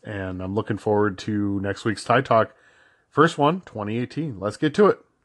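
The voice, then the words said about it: Excited-sounding voice. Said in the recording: “I'm pretty sure you could hear it in my voice. I'm very excited”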